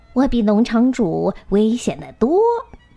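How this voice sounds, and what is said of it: Sly, cunning voice. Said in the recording (Chinese): “一个狡猾的声音说”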